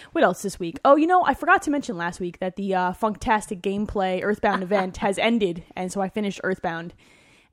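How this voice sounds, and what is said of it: Tired-sounding voice. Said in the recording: “why I sound so tired”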